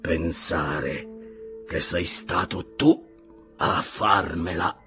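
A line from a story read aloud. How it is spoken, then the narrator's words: Murmur. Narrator (Italian): mormorò Silver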